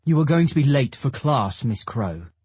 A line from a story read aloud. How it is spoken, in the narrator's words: he says in a clipped tone